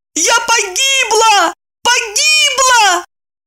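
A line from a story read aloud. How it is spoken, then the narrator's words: Panicked wailing. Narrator (Russian): Паникуя, и Евдокия в унисон завопила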